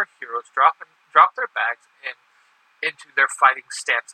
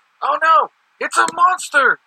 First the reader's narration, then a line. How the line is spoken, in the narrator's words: yells someone from behind Jason and Trini